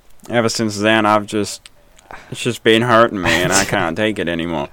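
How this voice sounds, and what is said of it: Imitates another person's voice. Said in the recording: “That's literally how she was talking the whole time.”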